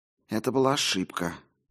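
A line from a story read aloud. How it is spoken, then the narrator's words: Whisper. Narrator (Russian): прошептал Уильям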